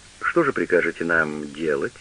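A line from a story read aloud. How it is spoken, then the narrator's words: Plain. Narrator (Russian): спросил Штудман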